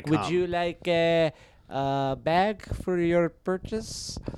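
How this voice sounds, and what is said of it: Terrified Middle Eastern woman's accent. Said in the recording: “you can do accents. ... I'm doing a real good job of doing a Middle Eastern woman ... A terrified Middle Eastern woman.”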